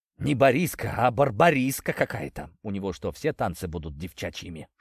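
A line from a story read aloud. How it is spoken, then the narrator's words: Whispered. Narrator (Russian): шепнул мне Глеб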